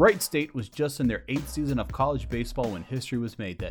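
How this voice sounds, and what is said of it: Usual voice. Nothing is said of it.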